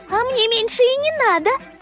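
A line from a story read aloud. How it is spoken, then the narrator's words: Giggling. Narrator (Russian): хихикнула Лисичка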